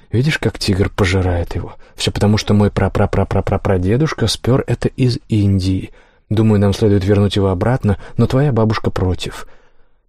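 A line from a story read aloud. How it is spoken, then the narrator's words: Mother's whisper. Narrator (Russian): Мама шептала мне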